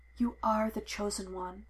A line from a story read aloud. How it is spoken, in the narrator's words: he whispered